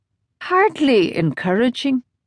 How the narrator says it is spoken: Darcy said dryly

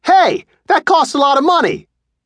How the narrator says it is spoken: yelled

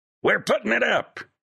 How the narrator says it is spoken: shouted

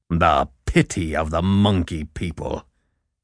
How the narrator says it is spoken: Baloo snorted

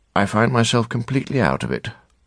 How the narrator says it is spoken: in a cold, truthful voice, she said

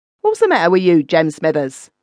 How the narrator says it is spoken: inquired the skipper, scowling

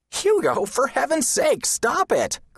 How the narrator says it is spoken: cried Tom

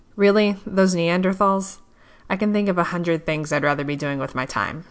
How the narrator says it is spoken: scoffed

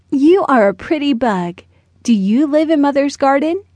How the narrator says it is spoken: he asked

